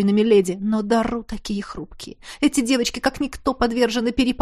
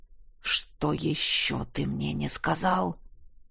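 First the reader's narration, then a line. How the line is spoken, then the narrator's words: Through gritted teeth. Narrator (Russian): Процедил Кариан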